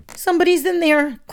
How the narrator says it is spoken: Colt squeaked

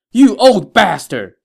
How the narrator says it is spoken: Zhang Fei yelled

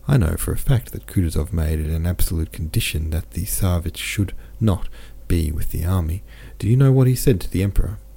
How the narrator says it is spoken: Prince Vasily said in a whisper

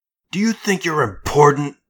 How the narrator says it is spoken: Thomas spat

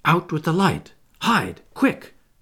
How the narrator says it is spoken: cried John, taking command

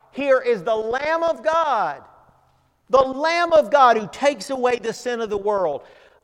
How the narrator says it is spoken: John cried out

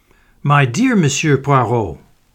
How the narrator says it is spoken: cried the newcomer

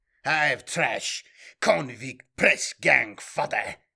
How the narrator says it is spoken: sneered his opponent

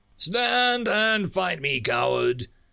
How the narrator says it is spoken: Ragnar shouted

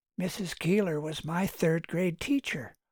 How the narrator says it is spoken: whispered someone

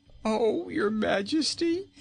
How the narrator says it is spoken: pleaded poor Rinkitink

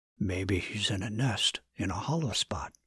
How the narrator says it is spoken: Dustin whispered back

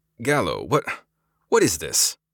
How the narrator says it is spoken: Sevent sputtered

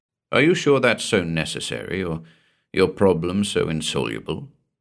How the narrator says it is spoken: asked gently

